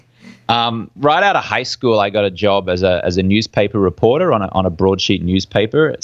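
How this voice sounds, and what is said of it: Australian accent. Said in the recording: “I'm from Brisbane, Australia, hence the funny accent you can hear”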